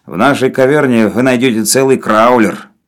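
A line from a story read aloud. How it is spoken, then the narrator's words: Gloomy grumble. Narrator (Russian): мрачно проворчал Навага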